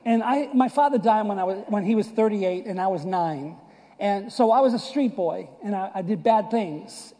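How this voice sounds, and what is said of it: Boston / New York accent. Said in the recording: “I was born and raised in Boston and New York area. You can clearly see that this is not deep South accent.”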